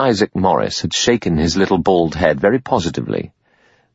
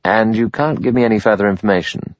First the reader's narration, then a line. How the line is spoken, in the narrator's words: He said in the same casual tone